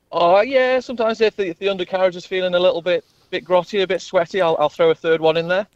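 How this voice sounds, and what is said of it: English accent. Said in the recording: “don't let the English accent fool you”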